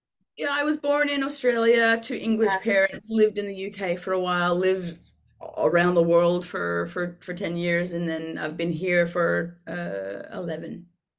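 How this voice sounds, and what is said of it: Hard-to-place mixed English accent. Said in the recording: “You don't sound like you're from the UK ... your accent ... I can't place your accent at all. I could place like little bits here and there”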